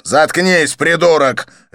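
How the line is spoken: Barked. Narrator (Russian): рявкнул Канканан

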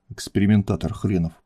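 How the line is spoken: Grumbled under breath. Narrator (Russian): пробурчал он себе под нос

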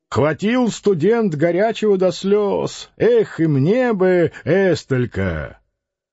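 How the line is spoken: Cheerful shout. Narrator (Russian): Кто-то мохнатый весело крикнул

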